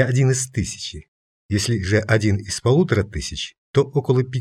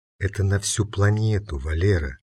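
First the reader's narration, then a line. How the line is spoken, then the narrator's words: Quiet reminder. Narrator (Russian): тихо напомнила Аня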